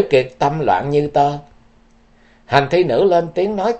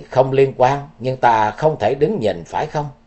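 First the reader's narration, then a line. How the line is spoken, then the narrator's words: Smiling woman. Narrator (Vietnamese): Hành thi nữ mỉm cười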